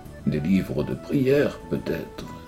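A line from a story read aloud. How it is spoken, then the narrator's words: Hesitant, toneless voice. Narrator (French): risqua-t-il d'une voix blanche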